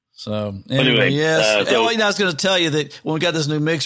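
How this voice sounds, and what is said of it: Southern US accent. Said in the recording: “sound like a Texas accent, but no, I'm from Kentucky ... the Southern accent filter”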